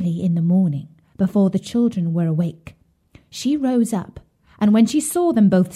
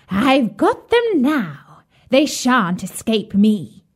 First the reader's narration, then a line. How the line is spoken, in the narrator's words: she laughed wickedly and said jeeringly